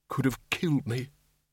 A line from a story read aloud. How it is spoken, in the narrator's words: he muttered